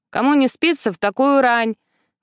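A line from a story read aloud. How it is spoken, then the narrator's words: Grumbling with loud yawn. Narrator (Russian): Ворчит Элис и громко зевает в трубку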